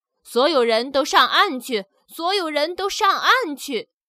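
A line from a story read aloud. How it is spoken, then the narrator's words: Urgent shouting. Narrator (Chinese): 救生员听见呼叫声后，大喊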